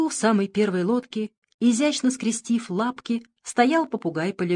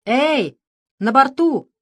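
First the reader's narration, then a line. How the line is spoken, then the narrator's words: Proud shout, parrot. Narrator (Russian): гордо крикнул попугай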